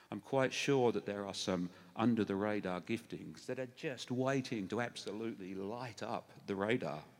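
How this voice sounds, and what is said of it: English accent. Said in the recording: “obviously, I've got an English accent. I can't really help that.”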